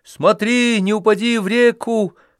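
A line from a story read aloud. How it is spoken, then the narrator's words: Shouting after someone. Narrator (Russian): крикнул ему вслед Ильюша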